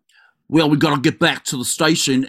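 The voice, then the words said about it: Exaggerated put-on Boston accent. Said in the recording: “she has this fucking Boston accent ... Ew, that's not Boston.”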